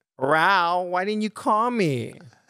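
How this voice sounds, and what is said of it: Mock annoyed young woman's voice. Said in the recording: “talk like a white girl for me, please ... be a white girl calling you mad that you didn't meet her last night for a date ... Be the girl giving you shit for it.”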